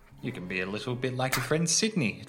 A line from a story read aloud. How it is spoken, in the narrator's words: Jasper chuckled